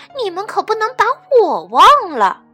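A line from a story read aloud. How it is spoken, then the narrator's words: Quiet muttering. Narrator (Chinese): 黄鼠狼小声嘀咕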